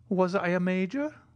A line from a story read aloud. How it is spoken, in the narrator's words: timidly asked the old soldier